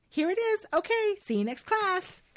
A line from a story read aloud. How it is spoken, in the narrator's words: Elle happily chirps